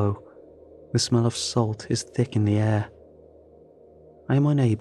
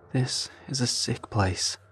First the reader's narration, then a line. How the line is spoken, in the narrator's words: Manny says in a low voice